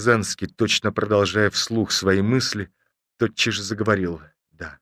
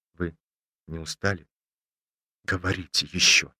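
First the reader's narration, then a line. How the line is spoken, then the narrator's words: Timid. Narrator (Russian): Ромашов сказал робко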